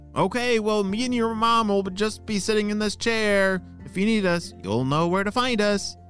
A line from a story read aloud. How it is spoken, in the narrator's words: said her dad